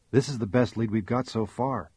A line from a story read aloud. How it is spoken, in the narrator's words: Scully said softly